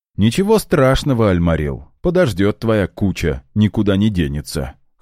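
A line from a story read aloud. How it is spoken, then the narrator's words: Dismissive snort. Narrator (Russian): хмыкнул в ответ эльф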